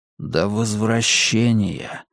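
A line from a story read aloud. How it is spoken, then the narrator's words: Barely audible whisper. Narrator (Russian): еле слышно прошептал Гам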